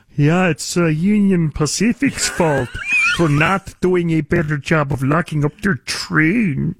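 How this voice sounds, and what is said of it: Imitates another person's voice. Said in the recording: “That's a pretty good, what the hell is that accent, George Gascon impersonation? ... That was a pretty good George Gascon impersonation”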